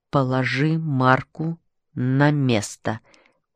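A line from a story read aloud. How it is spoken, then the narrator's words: Slow, deliberate. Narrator (Russian): произнес доктор Киссинг медленно и раздельно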